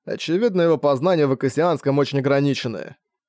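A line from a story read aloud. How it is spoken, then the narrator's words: Irritated reply. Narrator (Russian): раздраженно ответил Ибок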